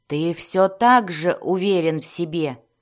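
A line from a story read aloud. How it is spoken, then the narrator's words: Growled. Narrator (Russian): прорычал Зак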